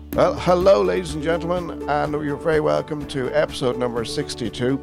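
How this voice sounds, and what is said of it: Croaky voice from a cold. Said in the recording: “I sound very croaky ... the worst man cold in history”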